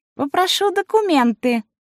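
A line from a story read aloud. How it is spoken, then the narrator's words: Thin high voice. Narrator (Russian): сказал тонким голосом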